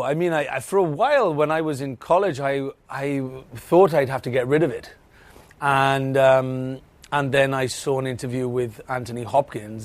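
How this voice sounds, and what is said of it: Welsh accent. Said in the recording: “you're from wales ... that's wales ... that accent”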